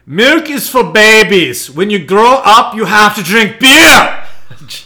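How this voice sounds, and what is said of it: Arnold Schwarzenegger impression. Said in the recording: “my best attempt at doing an impersonation of a famous artist... This is from Arnold Schwarzenegger... That was horrible.”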